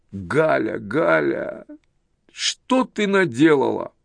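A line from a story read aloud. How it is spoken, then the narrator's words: Sobbing like a child. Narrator (Russian): отец зарыдал, как ребенок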